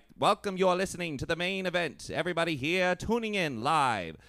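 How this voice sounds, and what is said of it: Old-time radio announcer voice, drawn-out consonants. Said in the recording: “radio announcers back in the day had that like distinct voice, but it was because it was hard to hear people over like the distortion of like old radios ... you had to really draw out your consonants”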